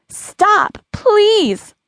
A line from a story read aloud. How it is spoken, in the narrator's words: Lily screamed out